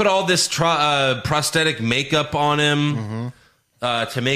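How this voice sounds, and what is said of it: Usual voice. Nothing is said of it.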